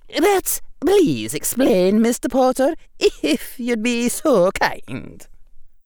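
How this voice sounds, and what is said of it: Precise Scottish accent. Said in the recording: “in her precise Scottish accent”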